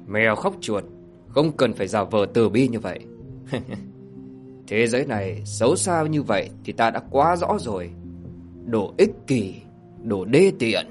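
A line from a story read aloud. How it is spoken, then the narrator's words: Cold sneering. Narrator (Vietnamese): Thạch Kiếm cười nhạt nói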